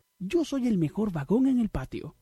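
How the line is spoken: Exclaiming. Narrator (Spanish): exclamó

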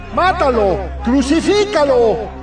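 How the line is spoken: Crowd shouting. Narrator (Spanish): Ellos comenzaron a gritar

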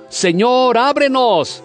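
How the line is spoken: Shouting. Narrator (Spanish): gritando

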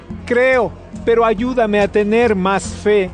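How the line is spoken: Father crying out. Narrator (Spanish): El padre del niño gritó al instante

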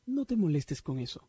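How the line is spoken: Plain. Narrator (Spanish): dijo Kelsey

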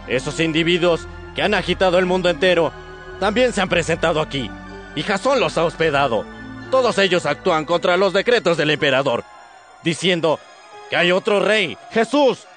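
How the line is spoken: Crowd shouting. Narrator (Spanish): gritando

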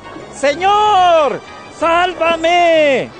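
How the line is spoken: Frightened shout. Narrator (Spanish): se asustó y como empezaba a hundirse, gritó

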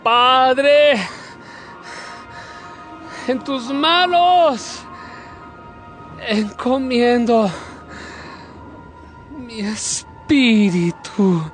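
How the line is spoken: Crying out loudly. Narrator (Spanish): lanzó un grito y dijo

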